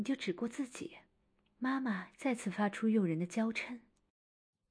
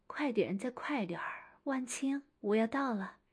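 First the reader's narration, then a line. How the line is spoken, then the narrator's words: Heavy panting. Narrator (Chinese): 同时喘着粗气道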